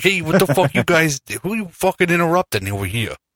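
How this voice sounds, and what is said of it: Aggressive South Philly accent. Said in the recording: “aggressive South Philly ... aggressive Philly”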